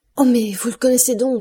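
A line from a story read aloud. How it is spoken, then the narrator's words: Joyful exclamation. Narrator (French): s'écria Julie, les yeux étincelants de joie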